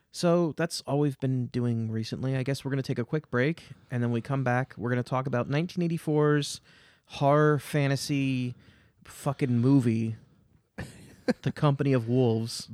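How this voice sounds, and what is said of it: Eastern Pennsylvania accent. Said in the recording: “you're going to hear me mispronounce wolf, because my stupid Eastern Pennsylvania accent ... Oh, you do say it weird, huh?”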